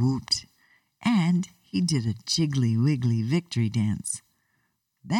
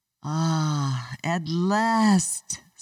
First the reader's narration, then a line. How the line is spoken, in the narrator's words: sighed Mr